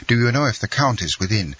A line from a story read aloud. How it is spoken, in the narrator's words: he said hastily